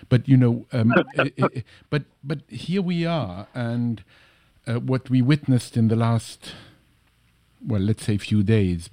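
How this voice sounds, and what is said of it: Slight European accent. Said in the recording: “I have a slight accent. I come from Europe”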